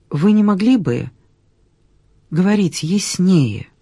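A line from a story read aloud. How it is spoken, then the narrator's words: Soft. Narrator (Russian): тихонько произнесла Ольга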